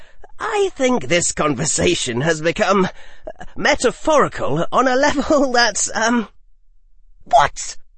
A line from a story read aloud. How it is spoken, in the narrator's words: She screeched at him at the top of her lungs inside their quieting barrier